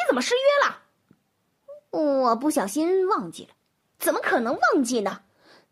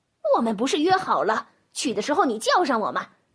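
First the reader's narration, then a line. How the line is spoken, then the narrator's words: Shocked and angry. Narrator (Chinese): 猫又惊又怒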